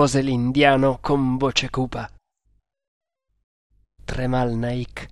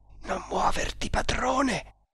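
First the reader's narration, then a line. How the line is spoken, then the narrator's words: Whisper. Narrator (Italian): sussurrò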